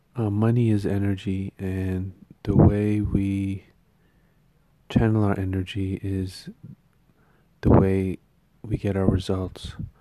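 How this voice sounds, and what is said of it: Hoarse, strained voice. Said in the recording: “My throat and my voice is kind of on the fritz”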